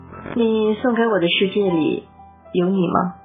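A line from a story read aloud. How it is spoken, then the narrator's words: Flat, indifferent question. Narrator (Chinese): 我淡淡的问道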